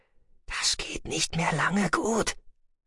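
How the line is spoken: Whispered. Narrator (German): flüsterte Gyhala Maas ihm zu

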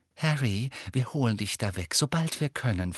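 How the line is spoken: Whisper. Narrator (German): flüsterte Mrs

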